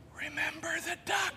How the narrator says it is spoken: she whispered to him

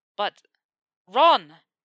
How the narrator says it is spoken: Harry snapped at him

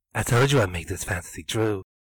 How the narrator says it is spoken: the man whispered loudly in her ear

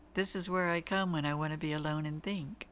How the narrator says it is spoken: Dean said in that deep, wonderful voice I love so much

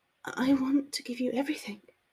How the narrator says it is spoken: she whispered

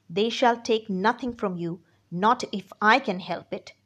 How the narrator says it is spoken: he said

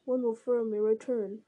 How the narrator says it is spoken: He heard the wizard sigh and mutter

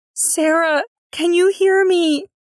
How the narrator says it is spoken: Nyx called through gasps for breath

